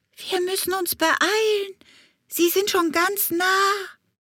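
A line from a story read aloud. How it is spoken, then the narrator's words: Call. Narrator (German): rief Hummelbrumm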